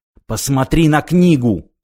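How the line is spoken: Hissing. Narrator (Russian): прошипел он

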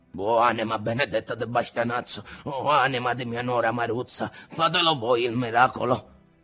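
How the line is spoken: Old man muttering. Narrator (Italian): il nonno borbottava

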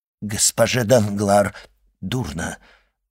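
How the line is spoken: Stammering. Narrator (Russian): запинаясь, сказал Вильфор

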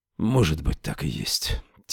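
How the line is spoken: Quiet. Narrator (Russian): тихо сказал он

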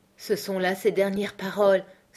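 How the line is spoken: Sighed. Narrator (French): soupira Morgan

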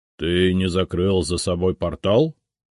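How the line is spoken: Stern question. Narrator (Russian): строго спросил Библиус

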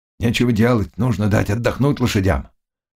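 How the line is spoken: Plain, stout rider. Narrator (Russian): сказал толстый всадник

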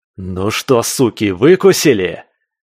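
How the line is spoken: Unrestrained shout. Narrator (Russian): Не сдерживаясь, крикнул

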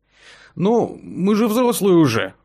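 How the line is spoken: Timid remark. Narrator (Russian): робко заметил

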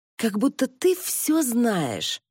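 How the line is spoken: Hissing. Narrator (Russian): прошипела Джорджиана

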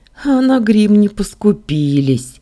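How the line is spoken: Wry snort. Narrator (Russian): хмыкнула я

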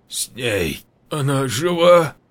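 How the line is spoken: Hoarse, unsteady. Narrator (Russian): Хрипло проговорил шатающийся Руслан

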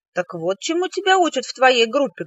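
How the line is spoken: Angry exclamation. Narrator (Russian): гневно воскликнула я

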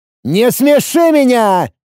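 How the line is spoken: Furious roar. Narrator (Russian): Разъяренно взревел

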